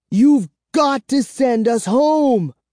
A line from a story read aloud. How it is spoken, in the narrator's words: I cried to Count Nightwing